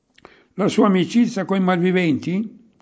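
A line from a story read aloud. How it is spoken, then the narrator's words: Shouting. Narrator (Italian): gridò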